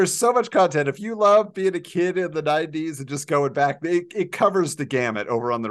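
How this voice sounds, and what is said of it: Usual voice. Nothing is said of it.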